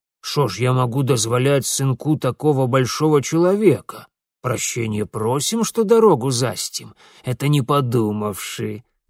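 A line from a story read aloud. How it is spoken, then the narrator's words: Mocking deep bass. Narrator (Russian): С насмешливым поклоном пробасил деревенский богатей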